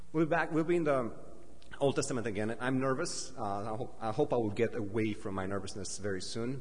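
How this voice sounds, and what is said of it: Non-native, Dracula-like accent. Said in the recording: “English is not my first language... my accent can be funny sometimes... they say I speak with Count Dracula's accent or Gru's accent from some cartoon movie”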